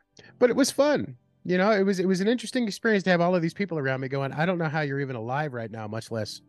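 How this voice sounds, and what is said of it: Usual voice. Nothing is said of it.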